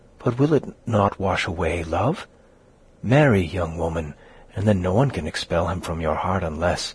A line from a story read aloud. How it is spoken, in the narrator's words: she added, whispering and bending over the other